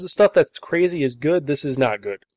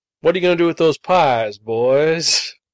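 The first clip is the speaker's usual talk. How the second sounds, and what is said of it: Put-on hillbilly-style accent. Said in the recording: “you got that accent going on, too. We're talking Deliverance style here”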